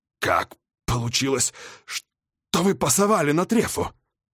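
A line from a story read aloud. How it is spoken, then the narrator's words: Breathed out. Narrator (Russian): выдохнул я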